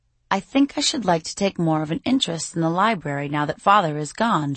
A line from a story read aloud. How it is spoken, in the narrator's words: she says, her voice a seductive purr